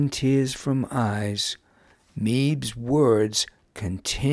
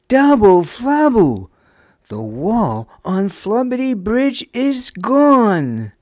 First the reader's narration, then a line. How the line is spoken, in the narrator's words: Nam blissfully called out